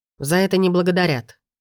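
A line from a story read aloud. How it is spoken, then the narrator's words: Sharp cutting reply. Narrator (Russian): резко пресекает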